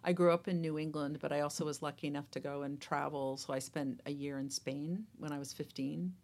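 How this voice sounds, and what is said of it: American accent. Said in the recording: “I was born in the United States, obviously, by based on my accent.”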